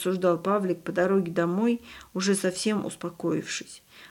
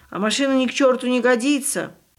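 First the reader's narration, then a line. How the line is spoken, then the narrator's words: Driver shouting back. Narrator (Russian): Водитель в долгу не оставался, тоже орал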